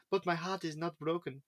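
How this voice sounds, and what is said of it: Imitates another person's accent. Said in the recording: “Why was I going to do it in your accent?”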